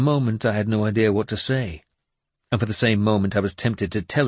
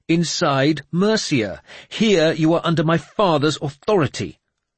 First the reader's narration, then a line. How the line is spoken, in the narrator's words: he said sharply